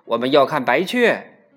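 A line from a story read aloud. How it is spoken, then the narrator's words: Crowd shouting. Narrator (Chinese): 很多人跟着喊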